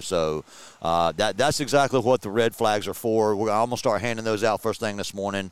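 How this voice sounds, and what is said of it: Rich, radio-style voice. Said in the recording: “you have a great voice ... He's got a great radio voice.”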